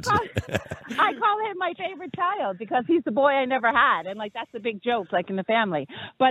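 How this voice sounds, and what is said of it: Bronx New York accent. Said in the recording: “your accent ... I bet she's from Boston ... I bet she's from Brooklyn ... No, the Bronx.”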